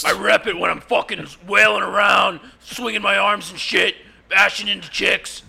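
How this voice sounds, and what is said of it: Impression of Dan Moshpit. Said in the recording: “your Dan Moshpit impression”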